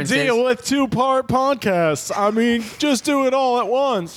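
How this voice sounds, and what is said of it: Bad Jerry Seinfeld impression. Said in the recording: “was that a Jerry impression? ... That was a very bad Jerry. My Jerry's not very good.”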